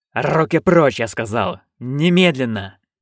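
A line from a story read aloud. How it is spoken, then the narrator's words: Growled. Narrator (Russian): прорычал он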